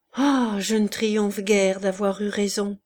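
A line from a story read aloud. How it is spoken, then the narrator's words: Murmured. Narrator (French): murmura-t-il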